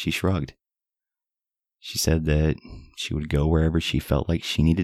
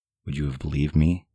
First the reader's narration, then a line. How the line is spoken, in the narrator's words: she answered